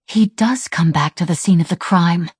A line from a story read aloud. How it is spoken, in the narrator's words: Sarah murmured